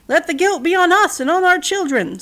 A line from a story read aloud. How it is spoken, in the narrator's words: someone shouted